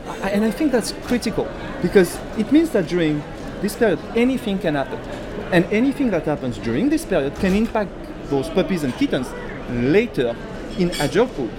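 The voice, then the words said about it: French accent in English. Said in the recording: “with my French accent, sometimes it doesn't come out properly”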